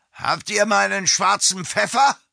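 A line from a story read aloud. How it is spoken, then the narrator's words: Impatient call. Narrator (German): rief Josef Steinhaus ungeduldig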